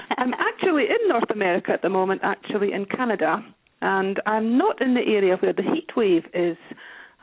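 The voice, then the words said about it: Scottish accent. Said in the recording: “as you can probably hear from my accent, I'm not an American ... Originally, I'm from Scotland.”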